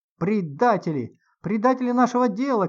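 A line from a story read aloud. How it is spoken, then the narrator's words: Crowd shouting. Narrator (Russian): кричали они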